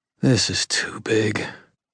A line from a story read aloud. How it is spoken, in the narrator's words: I breathed